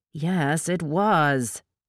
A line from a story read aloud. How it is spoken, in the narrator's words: she growled